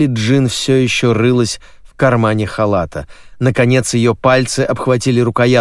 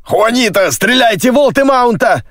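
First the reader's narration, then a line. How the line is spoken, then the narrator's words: Shouted. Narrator (Russian): крикнул Джеймс Клик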